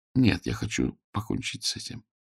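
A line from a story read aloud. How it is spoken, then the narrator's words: Quiet. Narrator (Russian): негромко сказала она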